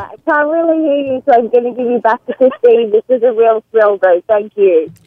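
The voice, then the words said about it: Heavy Australian accent. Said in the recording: “she has a heavy Australian accent... She's Australian as shit.”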